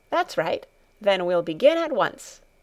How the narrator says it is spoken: she said cheerfully

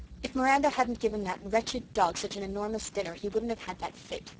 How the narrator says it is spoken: she said crossly

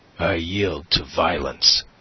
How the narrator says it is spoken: he said, showing his teeth like a snarling dog

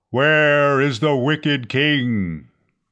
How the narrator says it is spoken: a voice thundered

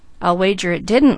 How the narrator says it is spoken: laughed Douglas

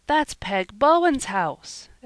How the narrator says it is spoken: exclaimed Peter in dismay

